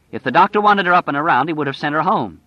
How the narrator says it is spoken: Stu said angrily

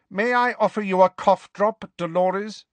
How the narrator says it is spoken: Professor McGonagall asked curtly

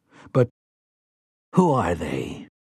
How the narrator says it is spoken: Callahan asks in a dry voice

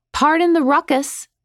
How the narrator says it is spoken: called out

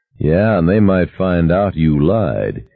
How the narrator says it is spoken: he added dryly

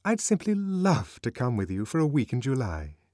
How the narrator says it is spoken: aloud and more warmly than ever

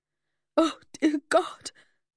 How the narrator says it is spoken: choked on my involuntary inhalation

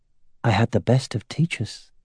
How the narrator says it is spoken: he replied in an equally low voice

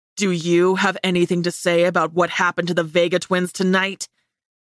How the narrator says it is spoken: He snarled

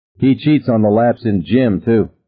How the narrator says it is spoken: Don said harshly

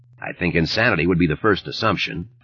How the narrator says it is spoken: Thad said dryly

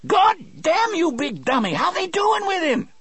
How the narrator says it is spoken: Delacroix screamed

